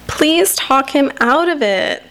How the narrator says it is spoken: says Kim in a whiny voice

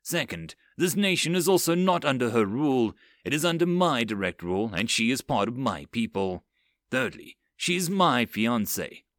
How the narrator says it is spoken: Blake stated out pointedly

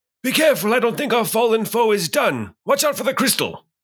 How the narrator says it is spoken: will yell out across the room and I'll say

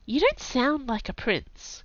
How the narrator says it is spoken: Kai muttered

